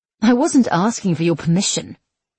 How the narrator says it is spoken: she snapped

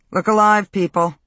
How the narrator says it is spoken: Coach called out

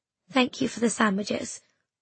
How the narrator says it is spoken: I said quietly to Sylvie

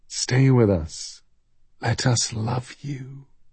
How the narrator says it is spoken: they whispered

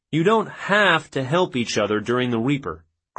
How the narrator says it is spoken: Krulak said

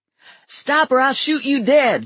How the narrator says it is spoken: Lula yelled to Virgil

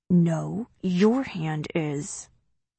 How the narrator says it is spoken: Through clenched teeth, he says

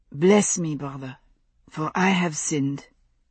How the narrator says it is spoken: Alexandre said in a low voice, with his head bowed

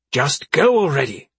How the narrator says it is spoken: Beatrix snapped

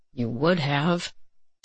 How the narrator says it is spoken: Jason said under his breath

